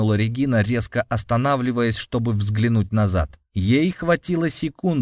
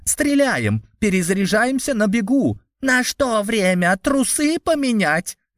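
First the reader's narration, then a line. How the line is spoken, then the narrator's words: Furious frustrated yell. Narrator (Russian): Гневно заорала разъяренная Рейко, которая уже несколько раз терпела неудачу в попытках оседлать Грима и Распутина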